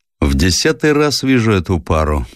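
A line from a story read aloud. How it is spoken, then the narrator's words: Gloomy sailor. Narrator (Russian): мрачно произнес матрос Гриша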